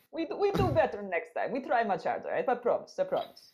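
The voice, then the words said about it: Put-on foreign accent. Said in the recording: “He's good accent.”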